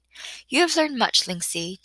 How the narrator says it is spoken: teacher said kindly

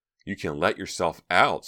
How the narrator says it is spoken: Stephanie snapped

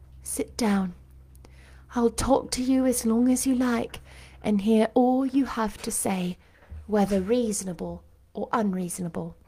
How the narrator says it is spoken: said to him soothingly

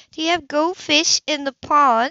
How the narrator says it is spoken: she asked excitedly

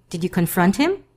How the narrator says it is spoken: after fearing the honest answer to that question, he quickly asks

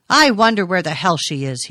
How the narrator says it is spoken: he shouted

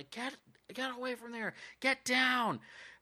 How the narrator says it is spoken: the cops screaming and yelling

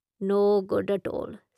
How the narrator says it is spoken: Sister mutters

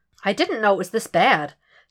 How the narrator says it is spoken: she remarks, too calmly for an average citizen

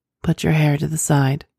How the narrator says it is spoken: managed to groan

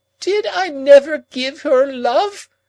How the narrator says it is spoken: cried Miss Havisham, turning wildly to me

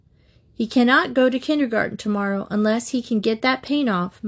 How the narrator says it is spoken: Mother said firmly from the top of the stairs

